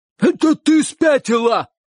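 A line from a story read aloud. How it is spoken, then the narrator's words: Shouted. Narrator (Russian): крикнул дядюшка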